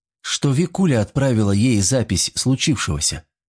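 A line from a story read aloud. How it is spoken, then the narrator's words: Calm explanation. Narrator (Russian): спокойно пояснила Вероника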